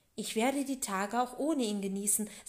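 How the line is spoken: Stern, to herself. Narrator (German): sagte sie streng zu sich selbst

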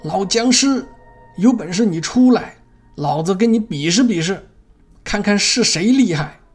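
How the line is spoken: Full-throated shout. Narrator (Chinese): 张大伟就扯着嗓子朝田野里大喊

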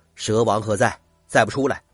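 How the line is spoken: Stern, harsh. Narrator (Chinese): 猛二…厉声说道

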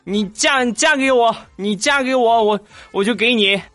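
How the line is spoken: Eager stuttering shout. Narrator (Chinese): 肖钦就喊

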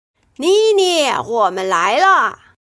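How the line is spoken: Loud shout. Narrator (Chinese): 小明大声叫道

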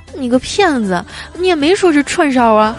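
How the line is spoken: Glum, whining. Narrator (Chinese): 妹子哭丧着脸说

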